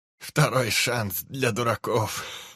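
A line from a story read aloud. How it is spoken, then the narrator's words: Laughing. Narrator (Russian): Рассмеялся Килмистер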